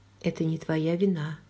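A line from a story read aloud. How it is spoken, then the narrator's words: Soft. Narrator (Russian): мягко сказала я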